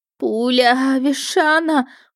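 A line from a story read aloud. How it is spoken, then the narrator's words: Moaned. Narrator (Russian): простонала я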